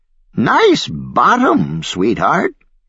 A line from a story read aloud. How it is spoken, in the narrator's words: croaked the old lady